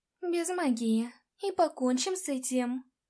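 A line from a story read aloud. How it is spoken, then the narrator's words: Tired reply. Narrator (Russian): устало ответила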